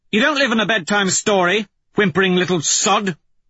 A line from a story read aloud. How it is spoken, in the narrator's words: she snaps